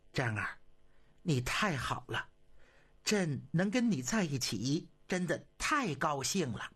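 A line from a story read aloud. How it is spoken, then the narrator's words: Excited murmur. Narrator (Chinese): 激动地 喃喃地说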